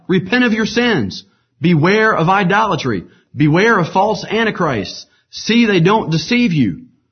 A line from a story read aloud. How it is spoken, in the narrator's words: he cried